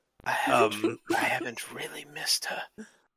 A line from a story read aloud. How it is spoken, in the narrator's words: he whispers to Haas